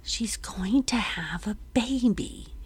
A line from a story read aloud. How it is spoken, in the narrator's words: whispers